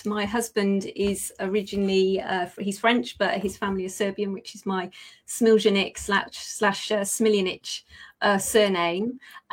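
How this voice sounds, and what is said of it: British accent. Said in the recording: “you are British by accent.”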